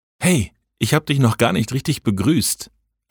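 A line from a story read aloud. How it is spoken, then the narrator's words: Low murmur. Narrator (German): raunte ich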